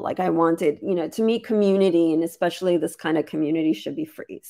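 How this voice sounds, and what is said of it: Strained voice, losing it. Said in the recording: “losing my voice.”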